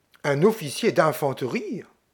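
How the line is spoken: Exclaiming in English. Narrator (French): Miss Lydia s'écria en anglais

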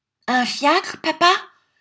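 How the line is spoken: Child's shout. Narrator (French): cria le petit Wackford

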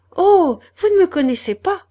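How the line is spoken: Exclaiming. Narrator (French): s'écria Madeleine

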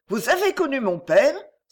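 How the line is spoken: Exclaimed. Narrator (French): s'écria Émilie

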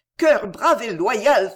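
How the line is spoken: Fervent exclamation. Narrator (French): s'écria Marie, plus constamment dévouée au malheur que les autres ne le sont à la prospérité

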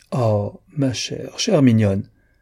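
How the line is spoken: Exclaimed. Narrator (French): s'écria Clodilde

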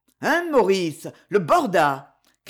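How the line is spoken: Father's beaming shout. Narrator (French): cria le père tout rayonnant

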